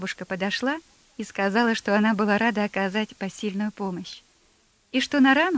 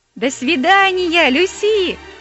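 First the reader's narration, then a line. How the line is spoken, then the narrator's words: Shouting. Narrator (Russian): кричал Дон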